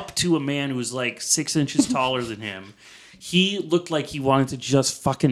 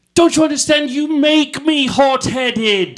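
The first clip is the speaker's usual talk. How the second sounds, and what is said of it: Attempted British accent. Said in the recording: “I think that was more British or vaguely nothing ... if you have to try the accent”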